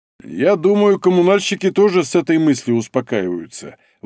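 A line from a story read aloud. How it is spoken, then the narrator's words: Grumbling. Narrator (Russian): ворчал Лашников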